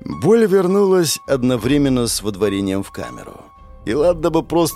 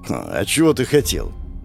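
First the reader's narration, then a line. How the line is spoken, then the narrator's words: Wry snort. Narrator (Russian): хмыкнул в ответ на мою жалобу первый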